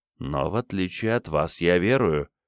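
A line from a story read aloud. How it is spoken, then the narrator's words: Gentle. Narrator (Russian): мягко сказал Бенедикт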